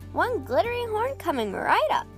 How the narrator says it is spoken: the cat mother said cheerfully

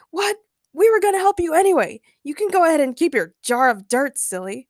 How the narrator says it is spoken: Ray shouted

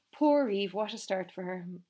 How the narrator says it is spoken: Benny's mother sighed

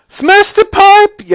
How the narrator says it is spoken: yelled Mrs

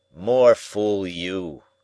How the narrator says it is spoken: growled

